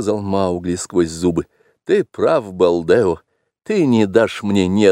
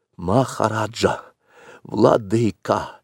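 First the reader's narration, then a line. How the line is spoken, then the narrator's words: Hoarse whisper. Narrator (Russian): произнес он, наконец, хриплым шепотом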